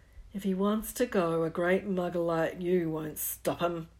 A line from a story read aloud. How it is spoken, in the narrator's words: growled Hagrid